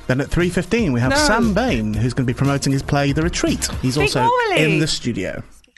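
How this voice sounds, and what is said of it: Calm, relaxed radio presenter voice. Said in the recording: “You've got your radio voice on ... a bit more relaxing ... Calmer”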